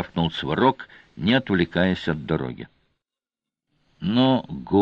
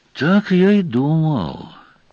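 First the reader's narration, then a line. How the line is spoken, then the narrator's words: Heavy sigh. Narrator (Russian): тяжко вздохнул Сварог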